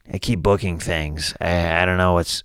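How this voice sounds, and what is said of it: Imitates another person's voice, curmudgeonly complaining. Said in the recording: “My impression of Marc Maron ... He's kind of this curmudgeon kind of like character ... he's always like put upon”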